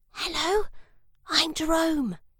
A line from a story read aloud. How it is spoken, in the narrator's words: whispered